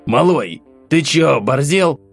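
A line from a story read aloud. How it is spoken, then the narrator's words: Hissed through teeth. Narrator (Russian): процедил он мне в лицо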